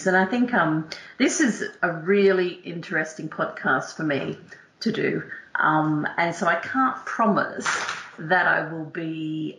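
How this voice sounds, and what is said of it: Australian accent. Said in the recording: “you can all hear from my twang that I am not English born and bred. I'm actually an Aussie.”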